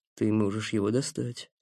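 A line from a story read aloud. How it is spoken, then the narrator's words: Quiet. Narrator (Russian): негромко сказал Мстиша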